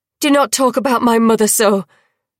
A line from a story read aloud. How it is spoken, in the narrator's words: the princess spat